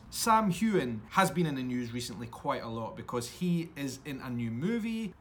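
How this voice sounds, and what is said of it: Scottish accent. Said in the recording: “your podcast with a Scottish accent”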